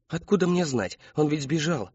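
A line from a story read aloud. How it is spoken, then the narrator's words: Pleading. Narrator (Russian): взмолился Кристофер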